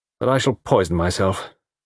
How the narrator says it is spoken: said Tony sadly

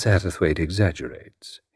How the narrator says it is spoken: he said quietly

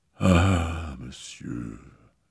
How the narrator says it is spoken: she murmured

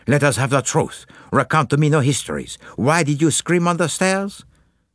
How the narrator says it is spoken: said Poirot in a brisk tone

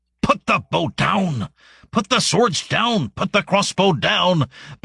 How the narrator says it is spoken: barked a voice from somewhere within the grass

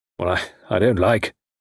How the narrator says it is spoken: he muttered

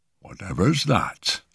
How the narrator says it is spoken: he muttered

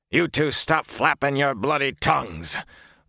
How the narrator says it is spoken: Uno snapped

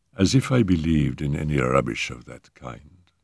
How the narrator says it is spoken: she murmured scornfully

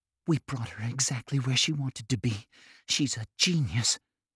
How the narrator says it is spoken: Ness whispered

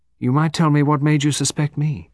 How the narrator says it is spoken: said Miss Lingard in a conversational tone

